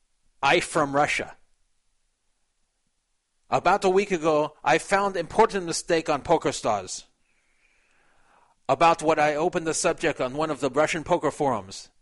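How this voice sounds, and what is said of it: Weak put-on Russian accent. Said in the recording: “I'll read this with his Russian accent ... I can't do a good Russian.”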